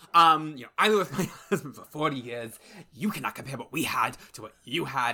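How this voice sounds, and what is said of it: Put-on accent. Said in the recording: “I'm doing the accent. I'm sorry. It's offensive, but I can't stop.”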